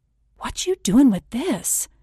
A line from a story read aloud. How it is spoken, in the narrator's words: I said, whispering back